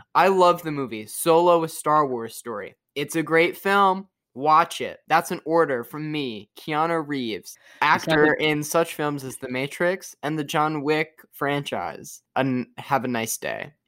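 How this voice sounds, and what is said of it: Imitates another person's voice. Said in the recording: “I have a direct quote here from Keanu Reeves. ... I'm going to include my impression also.”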